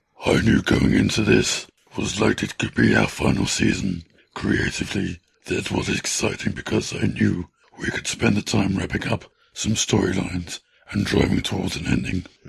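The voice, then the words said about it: Cartoon villain character voice. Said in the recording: “Does that hurt your voice? ... It's Dr. Claw from Inspector Gadget, isn't it?”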